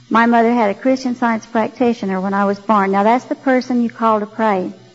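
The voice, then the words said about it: Slight Texas accent. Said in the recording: “you'll hear a little Texas accent here, that's because I was born in Graham, Texas”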